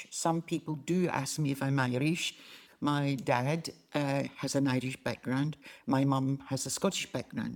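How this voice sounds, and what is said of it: Scottish accent. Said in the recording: “you can tell from my accent that I'm Scottish”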